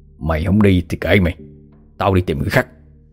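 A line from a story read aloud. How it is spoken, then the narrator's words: Sullen muttering. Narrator (Vietnamese): Ông Chánh gương mặt khăm he, miệng thì lẩm bẩm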